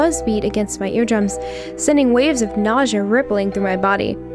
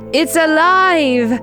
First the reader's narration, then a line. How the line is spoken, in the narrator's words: He yelled in an exaggerated German accent